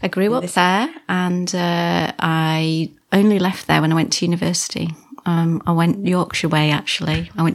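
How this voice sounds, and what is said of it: Slight Lancashire accent. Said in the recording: “you can hear a bit of a ... accent ... I'm a Wigan lass ... Lancashire lass”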